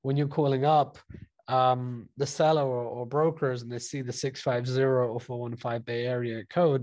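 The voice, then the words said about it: British accent. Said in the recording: “I have a British accent, so they know I'm not from the US”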